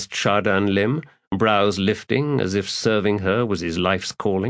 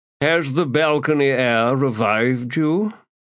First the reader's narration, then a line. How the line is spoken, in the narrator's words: now said in his usual drawl